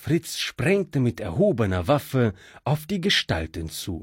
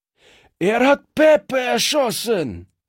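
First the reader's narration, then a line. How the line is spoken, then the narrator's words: Thug screaming. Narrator (German): schrie einer der Strolche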